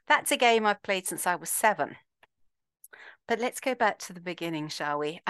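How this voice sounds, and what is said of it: Slight accent. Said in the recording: “there's a bit of an accent there, but where's it from?”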